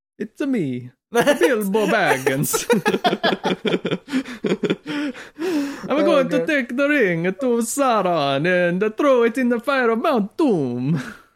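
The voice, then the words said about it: Exaggerated comic Italian accent. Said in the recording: “doing the same voice for every single character ... the dialogue is just egregious Italian”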